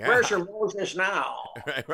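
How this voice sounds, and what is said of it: Imitates another person's voice. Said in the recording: “Is that a good impression? ... That was pretty good. That was pretty good.”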